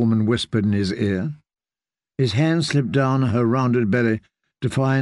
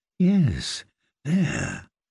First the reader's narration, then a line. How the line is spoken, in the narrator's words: she murmured